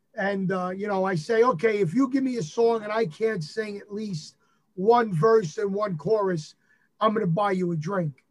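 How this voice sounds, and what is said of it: New York accent. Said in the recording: “your New York accent”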